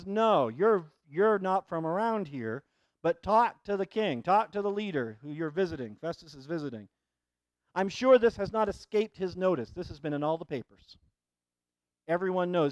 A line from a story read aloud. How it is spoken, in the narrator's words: he says